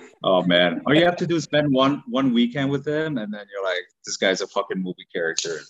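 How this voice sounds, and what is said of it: Usual voice. Nothing is said of it.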